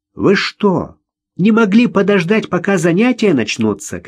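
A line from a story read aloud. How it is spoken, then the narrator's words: Shouting from a window. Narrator (Russian): кричала завхозу из окна первого этажа завуч Раиса Сергеевна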